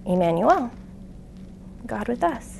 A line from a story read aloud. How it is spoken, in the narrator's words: the Spirit very gently said